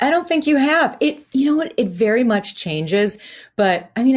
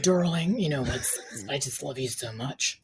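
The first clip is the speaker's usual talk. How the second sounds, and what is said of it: Imitates another person's voice. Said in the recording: “favorite housewife to impersonate ... I do love doing Loyan because it's so easy to just be like”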